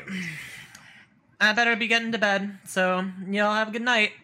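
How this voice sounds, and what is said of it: Put-on Midwestern mother accent. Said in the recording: “my terrible attempt at, like, Midwestern mother accent”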